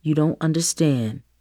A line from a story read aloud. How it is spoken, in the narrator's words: Dad spoke in a low and calm voice